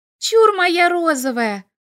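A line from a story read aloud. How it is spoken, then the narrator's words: Loud shout. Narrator (Russian): прокричала на весь дом Ильга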